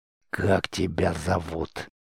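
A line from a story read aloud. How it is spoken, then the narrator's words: Sinister whisper. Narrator (Russian): зловещим шепотом поинтересовался Дастр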